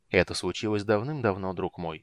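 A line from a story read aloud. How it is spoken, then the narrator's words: Soft speech. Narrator (Russian): мягко проговорил Танис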